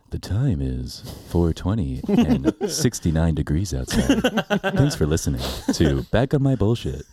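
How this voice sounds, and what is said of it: Smooth-talking radio announcer voice. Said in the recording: “my smooth talking radio voice.”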